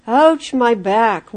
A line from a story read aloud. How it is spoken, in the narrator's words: William would groan